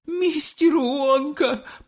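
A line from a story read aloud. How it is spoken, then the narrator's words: Moaning. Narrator (Russian): простонала миссис Телек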